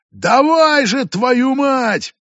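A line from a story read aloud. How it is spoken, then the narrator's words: Shouted. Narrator (Russian): Прокричала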